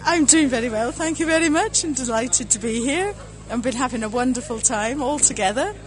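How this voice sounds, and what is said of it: Mixed Welsh and Scottish accent. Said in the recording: “that's not a Dublin accent, by the way... I come from Wales originally, but I've lived the last 50 years in Scotland, so I don't know quite what my accent is anymore”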